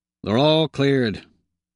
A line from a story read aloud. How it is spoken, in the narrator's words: Brundel says dryly